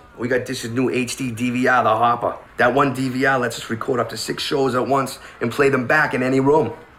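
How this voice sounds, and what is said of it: Working-class Boston accent. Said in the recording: “a working class family from Boston, just saying the word hopper in a Boston accent, hoppa, over and over again ... white Bostonian guys”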